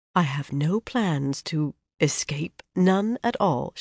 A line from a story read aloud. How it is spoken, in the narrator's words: she said in a quieter voice